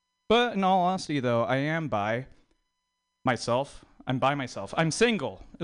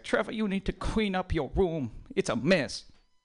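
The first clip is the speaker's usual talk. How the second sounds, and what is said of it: Put-on Chinese accent. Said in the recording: “that's a Chinese accent”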